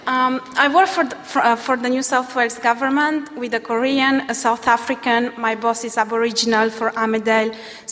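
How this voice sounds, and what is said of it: French accent in English. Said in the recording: “I'm French and not even Australian, so sorry for my accent.”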